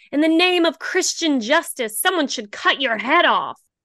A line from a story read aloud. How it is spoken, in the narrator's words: Charlie screamed at the judge